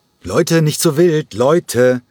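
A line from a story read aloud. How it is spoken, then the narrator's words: Interjecting call. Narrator (German): rief Nikos Chalergis in einer winzigen Pause dazwischen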